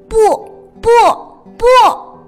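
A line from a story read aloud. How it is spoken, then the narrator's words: Loud. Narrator (Chinese): 他对着镜子大声说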